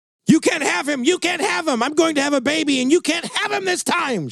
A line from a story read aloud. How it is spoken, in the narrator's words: screamed